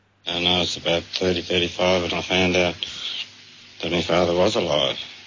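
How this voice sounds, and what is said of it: Fairly thick Australian accent. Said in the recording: “fairly thick Aussie accent”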